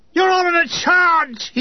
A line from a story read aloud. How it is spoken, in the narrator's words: he screamed